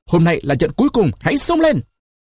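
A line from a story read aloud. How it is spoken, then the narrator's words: Loud shout. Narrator (Vietnamese): Caesar hét to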